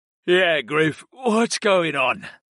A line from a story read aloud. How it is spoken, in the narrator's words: Brayden yawned